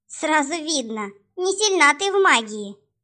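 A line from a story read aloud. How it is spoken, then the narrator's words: Mocking snort, young vampire. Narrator (Russian): насмешливо фыркнул вампиреныш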